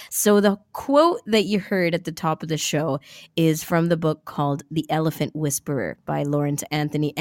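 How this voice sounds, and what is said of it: Congested voice from a cold. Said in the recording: “As you can probably tell from my voice, I'm still getting over a cold”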